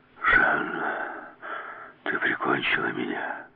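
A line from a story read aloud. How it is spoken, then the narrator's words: Hoarse wheeze. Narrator (Russian): прохрипел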